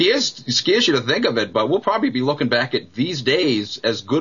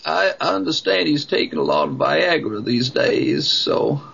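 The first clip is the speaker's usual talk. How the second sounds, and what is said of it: Impression of Bill Clinton. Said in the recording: “that's a heck of a good impression of him”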